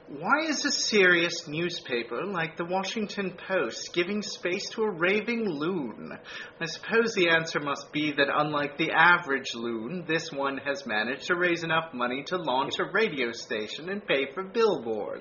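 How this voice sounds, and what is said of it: British accent Richard Dawkins impression. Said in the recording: “a marvelous British accent, which should I attempt to duplicate it? ... this is how I imagine Richard Dawkins sounded.”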